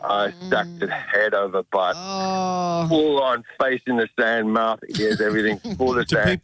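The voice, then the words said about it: South African accent. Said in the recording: “It's a funnier story because of the accent... Was he South African? Yeah.”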